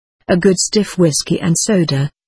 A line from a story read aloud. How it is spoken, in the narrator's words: I replied